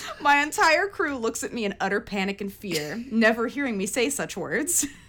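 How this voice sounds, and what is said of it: Usual voice. Nothing is said of it.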